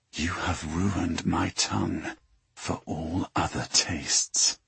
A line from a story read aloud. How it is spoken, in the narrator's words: He whispered